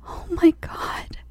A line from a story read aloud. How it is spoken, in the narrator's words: whimpered sympathetically